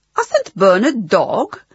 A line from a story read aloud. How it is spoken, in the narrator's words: exclaimed Mr